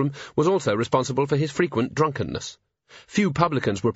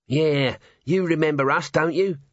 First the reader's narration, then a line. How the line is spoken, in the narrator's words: said Nobby, in a wheedling voice